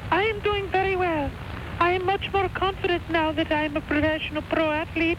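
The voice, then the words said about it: Unusual put-on character voice. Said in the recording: “You sound a little different”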